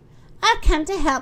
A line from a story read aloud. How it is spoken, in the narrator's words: she cried